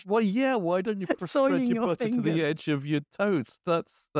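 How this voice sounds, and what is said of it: Usual voice. Nothing is said of it.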